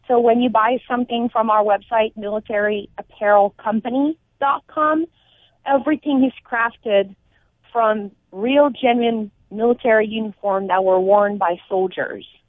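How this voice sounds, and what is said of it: French Canadian accent. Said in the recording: “you have the cutest little most adorable accent ... I am originally from Montreal, so I'm from French origin”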